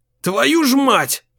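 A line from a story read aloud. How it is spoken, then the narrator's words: Shouted. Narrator (Russian): крикнул охранник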